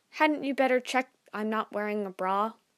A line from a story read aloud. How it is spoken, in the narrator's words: I don't stammer or stutter once